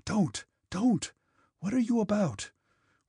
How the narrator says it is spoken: whispered their frightened voices

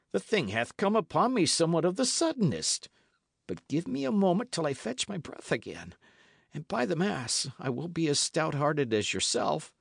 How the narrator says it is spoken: gasped Lawless

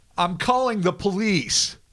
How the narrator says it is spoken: the terrified Anita shouted

